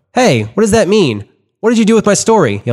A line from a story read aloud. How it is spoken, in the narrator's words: yelled at